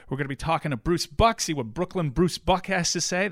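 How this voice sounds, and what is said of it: Excited, hyped-up voice. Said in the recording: “you hear it in my voice. I'm getting hyped ... You're actually bouncing.”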